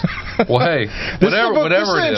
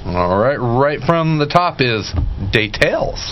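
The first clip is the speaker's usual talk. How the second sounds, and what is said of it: Bad put-on Southern accent. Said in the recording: “That's my bad southern accent.”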